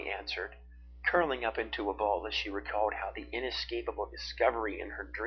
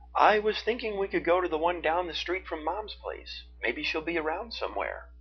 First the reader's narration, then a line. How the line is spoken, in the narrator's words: Zeke called out to her from the bedroom